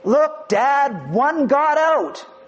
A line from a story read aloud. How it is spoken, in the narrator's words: The little boy shouted